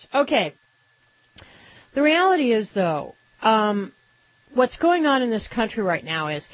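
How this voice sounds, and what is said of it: Slightly hoarse morning voice. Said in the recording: “Forgive me a little morning hoarseness. I forgot to put on my humidifier last night, and I'm a little hoarse.”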